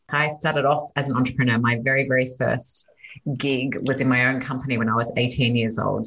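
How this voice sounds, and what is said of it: Australian accent. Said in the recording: “you can hear from my accent that I'm Australian originally”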